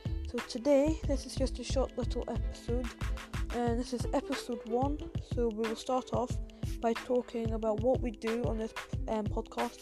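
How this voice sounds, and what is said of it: English accent. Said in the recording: “if you are laughing at my accent, then yes, I am English”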